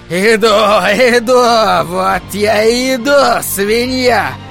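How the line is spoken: Hoarse yelling. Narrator (Russian): позади хриплый голос орал

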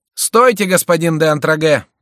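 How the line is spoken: Shouting. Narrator (Russian): крикнул Шико

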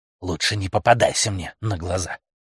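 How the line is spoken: Growl, pack leader. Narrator (Russian): прорычал вожак

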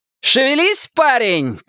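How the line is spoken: Shouting. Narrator (Russian): крикнула Рейнольдс

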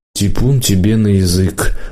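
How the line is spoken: Tired mother. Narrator (Russian): устало сказала мама

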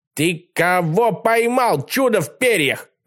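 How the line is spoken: Barked. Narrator (Russian): рявкнул Колобок

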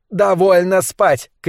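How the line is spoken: Shouting. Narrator (Russian): кричала она

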